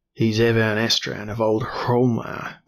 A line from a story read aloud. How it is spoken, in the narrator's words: grunted Count Smjorgen